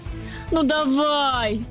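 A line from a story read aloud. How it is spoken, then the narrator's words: Moaned. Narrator (Russian): простонал я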